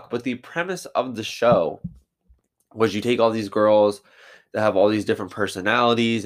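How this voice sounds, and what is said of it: Congested voice from a cold. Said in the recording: “I have a little bit of a cold”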